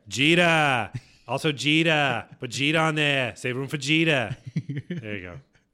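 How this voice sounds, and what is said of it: Poor put-on Boston accent. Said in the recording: “Why'd you do that in a Boston accent? ... Because I'm not good at accents.”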